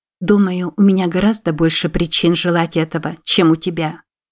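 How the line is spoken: Plain. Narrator (Russian): сказала она

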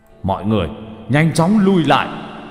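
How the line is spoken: Loud voice. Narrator (Vietnamese): Tuyết Ma lớn tiếng

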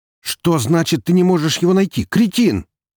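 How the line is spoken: Yelling into phone. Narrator (Russian): буквально заорал в телефон Максим Волков

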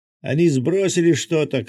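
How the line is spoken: Shout. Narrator (Russian): крикнул Миша

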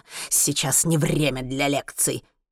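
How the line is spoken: Muttering. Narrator (Russian): бормочет он

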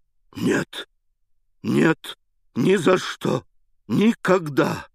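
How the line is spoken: Hoarse, choked exclamation. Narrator (Russian): восклицал он хриплым, задушаемым голосом

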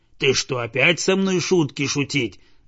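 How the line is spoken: Dog's growl. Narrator (Russian): зарычал пес

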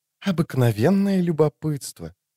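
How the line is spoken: Pleasant melodious female voice. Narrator (Russian): неожиданно приятным и мелодичным голосом ответила чародейка из Нильфгарда

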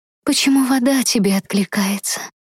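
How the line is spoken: Strangled wheeze. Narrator (Russian): Марий сипел, пытаясь сорвать мутное, будто сплетенное из тумана кольцо шеи

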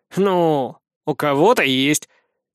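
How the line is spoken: Snorting. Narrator (Russian): Сид хмыкнул

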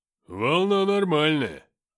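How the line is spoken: Deep bass voice. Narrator (Russian): пробасил Филиппыч

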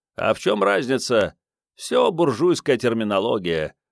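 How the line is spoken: Grumbled. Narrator (Russian): пробурчал Начо Перот

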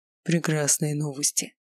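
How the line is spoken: Breathed out. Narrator (Russian): выдохнул он

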